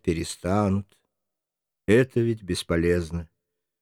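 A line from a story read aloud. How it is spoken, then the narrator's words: Calm reply. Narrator (Russian): Сын спокойно отвечает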